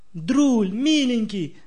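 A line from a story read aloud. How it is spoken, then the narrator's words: Shout. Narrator (Russian): закричала она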